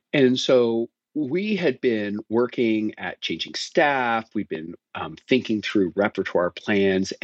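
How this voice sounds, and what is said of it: Noticeable non-American accent. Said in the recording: “my weird accent”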